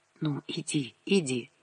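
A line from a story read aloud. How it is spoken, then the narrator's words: Whispered. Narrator (Russian): Лиска шептала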